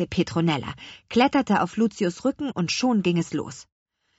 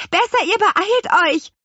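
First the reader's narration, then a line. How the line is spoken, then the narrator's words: Little witch calling out. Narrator (German): rief die kleine Apfelhexe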